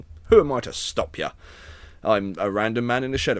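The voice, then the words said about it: Put-on posh accent. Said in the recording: “now that I've started a posh accent, I can't stop”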